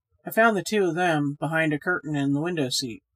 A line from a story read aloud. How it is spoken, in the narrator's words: said Reggie